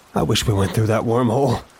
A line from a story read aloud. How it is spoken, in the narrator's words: Lewis sighed